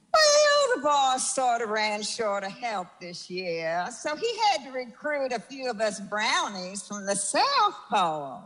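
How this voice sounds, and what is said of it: Put-on Southern accent. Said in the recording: “with a southern accent?”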